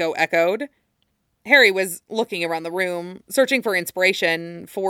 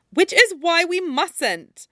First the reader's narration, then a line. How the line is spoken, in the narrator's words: cried Hermione